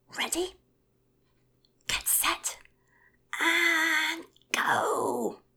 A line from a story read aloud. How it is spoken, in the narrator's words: bellowed